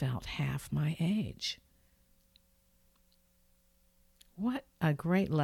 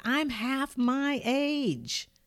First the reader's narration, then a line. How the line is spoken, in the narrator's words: shouted